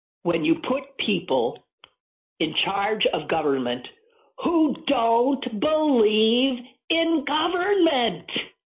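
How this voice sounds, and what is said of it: Screaming. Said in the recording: “I'm screaming.”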